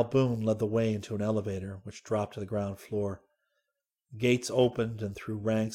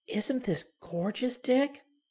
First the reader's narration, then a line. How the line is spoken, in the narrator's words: Dorothy whispered